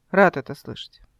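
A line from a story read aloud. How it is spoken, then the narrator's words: Ambiguous tone. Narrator (Russian): неясным тоном сказал он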